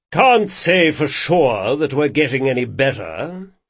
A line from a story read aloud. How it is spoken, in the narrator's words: he growled